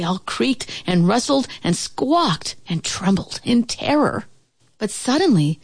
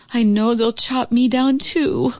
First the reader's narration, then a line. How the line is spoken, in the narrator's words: groaned the oak tree